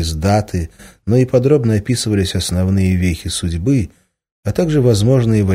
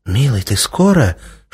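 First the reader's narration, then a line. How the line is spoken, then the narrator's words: Anxious whispered question. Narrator (Russian): шепотом спросила Иволга, которая с тревогой прислушивалась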